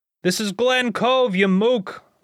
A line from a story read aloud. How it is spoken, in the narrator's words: one of the patrons shouts back